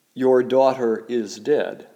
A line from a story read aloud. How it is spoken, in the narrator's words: they said